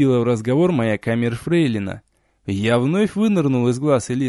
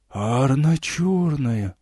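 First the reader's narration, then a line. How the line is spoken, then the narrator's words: Shocked whisper. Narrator (Russian): потрясенно прошептал епископ Карит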